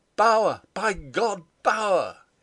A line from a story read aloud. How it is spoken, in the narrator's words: he cried